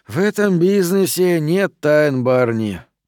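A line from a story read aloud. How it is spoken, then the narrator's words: Sigh. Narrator (Russian): вздохнул я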